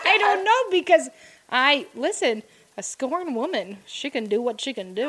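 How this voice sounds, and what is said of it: Bad put-on Irish accent. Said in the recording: “He turned into like an Irishman. ... But it was such a bad accent. ... It was horrible.”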